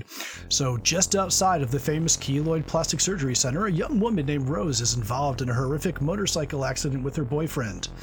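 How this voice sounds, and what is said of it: Announcer-style radio voice. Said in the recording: “I'll use my best radio voice”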